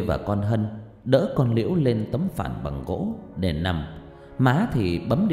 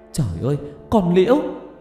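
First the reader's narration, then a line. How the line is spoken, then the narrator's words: Shouting together. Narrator (Vietnamese): cả ba má con cùng hét lên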